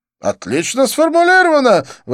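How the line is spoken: Exclamation. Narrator (Russian): воскликнул Дидье

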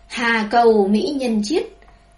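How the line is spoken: Loud laughing cry. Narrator (Vietnamese): cười lớn, cao giọng hô

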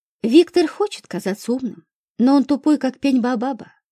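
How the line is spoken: Sigh. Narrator (Russian): вздохнул Макаров

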